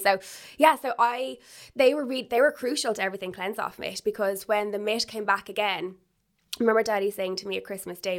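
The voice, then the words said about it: Posh accent. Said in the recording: “I like my accent ... Where am I from? ... Oh, she's very posh.”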